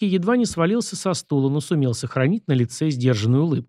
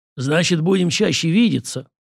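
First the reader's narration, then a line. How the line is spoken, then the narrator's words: Booming voice. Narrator (Russian): прогремел Зимин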